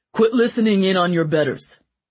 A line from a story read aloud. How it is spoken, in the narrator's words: the king barked angrily